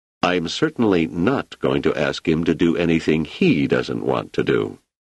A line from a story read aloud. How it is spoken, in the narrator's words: Selden said firmly